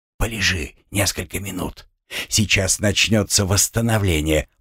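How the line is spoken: Whisper. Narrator (Russian): прошептал Луйко

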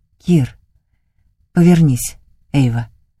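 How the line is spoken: Hoarse command. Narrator (Russian): хрипло командует он

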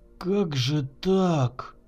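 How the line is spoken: Bitter. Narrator (Russian): с горечью произнес Егор

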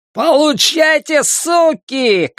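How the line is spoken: Shouting. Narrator (Russian): кричал этот джентльмен

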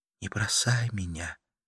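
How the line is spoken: Whisper. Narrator (Russian): прошептала Карла

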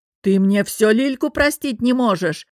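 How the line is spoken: Reproachful roar. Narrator (Russian): Раненым бизоном взревел Олег Иванович и, с укором напомнил

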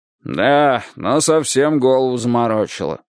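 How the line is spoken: Grumbling coachman. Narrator (Russian): проворчал фаэтонщик

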